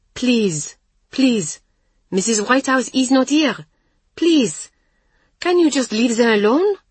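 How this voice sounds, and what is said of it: Indignant young woman, French accent. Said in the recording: “with her charming French accent ... her voice spiralling in indignation”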